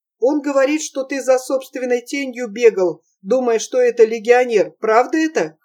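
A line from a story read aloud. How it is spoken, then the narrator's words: Laughing loudly. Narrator (Russian): хохотала Олеся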